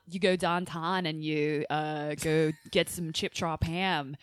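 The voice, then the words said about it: Imitated Pittsburgh accent. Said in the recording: “Their accent? ... There's a Pittsburgh accent? ... That's almost like a East Coast Valley thing. It sounds a little Philly-ish, but then it's also a little bit like Midwestern. It's really weird.”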